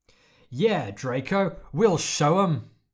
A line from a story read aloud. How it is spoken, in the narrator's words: Pansy shouted